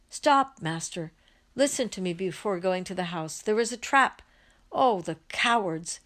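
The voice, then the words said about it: Choked, shouting voice. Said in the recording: “is able to shout in a choked voice”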